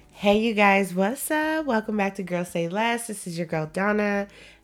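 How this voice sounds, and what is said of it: Voice sounds off, under the weather. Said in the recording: “if you guys notice my voice sounds crazy, I'm a little bit under the weather”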